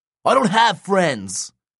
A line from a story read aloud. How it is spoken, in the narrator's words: Nico yelled